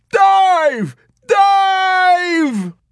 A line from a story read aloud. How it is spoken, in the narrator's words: to McWatt he screamed